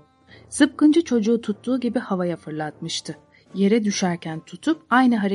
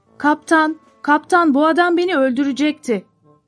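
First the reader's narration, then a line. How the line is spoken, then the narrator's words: Shouting. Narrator (Turkish): diye bağırdı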